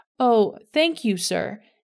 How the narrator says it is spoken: exclaimed

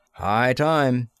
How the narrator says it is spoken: grumbled Parkinson

